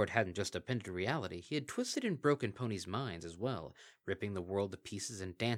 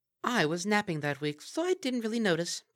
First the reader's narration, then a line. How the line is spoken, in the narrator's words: piped up Aldrovandra